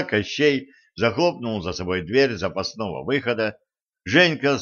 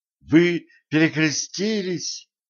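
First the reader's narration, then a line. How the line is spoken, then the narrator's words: Exclamation. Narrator (Russian): воскликнула Женька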